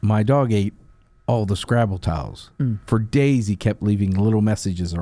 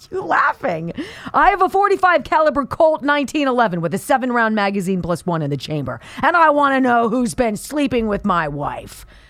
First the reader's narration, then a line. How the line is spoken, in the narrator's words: Guy yelled